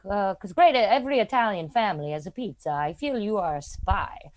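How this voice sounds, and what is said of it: Imitated strong Italian accent. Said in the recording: “has a super Italian accent.”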